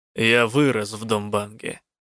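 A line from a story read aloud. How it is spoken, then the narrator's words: Snort. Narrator (Russian): фыркнул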